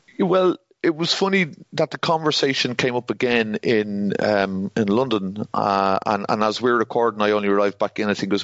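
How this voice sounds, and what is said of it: Irish accent. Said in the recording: “my Irish accent ... you're probably the first Irish person he'd ever heard actually speaking”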